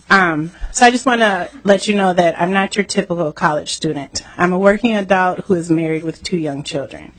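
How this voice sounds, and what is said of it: Congested, sick-sounding voice. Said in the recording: “I have a cold, so I know I sound horrible.”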